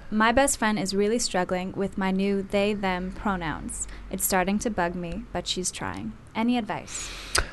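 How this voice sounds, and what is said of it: Put-on sexy radio presenter voice. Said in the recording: “Such a beautiful voice ... I'm practicing my radio voice. I'll be as sexy as you.”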